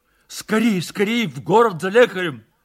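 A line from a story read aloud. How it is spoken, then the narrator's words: Shouting. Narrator (Russian): кричал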